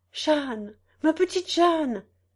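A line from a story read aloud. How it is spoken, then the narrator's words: Pleading cry. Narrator (French): Je t'ai crié, suppliant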